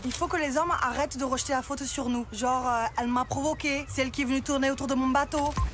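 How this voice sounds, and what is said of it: Put-on southern French accent. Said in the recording (French): “vous êtes fait plaisir avec l'accent du Sud”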